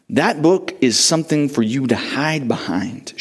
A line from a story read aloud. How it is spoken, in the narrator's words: Shepherd said